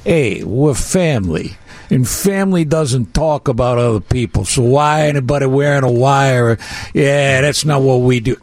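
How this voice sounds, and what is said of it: Imitates another person's voice. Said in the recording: “Good impression,”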